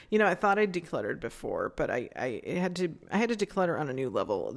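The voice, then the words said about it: Strained, fading voice. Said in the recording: “I'm losing my voice, so I might have to cut this short.”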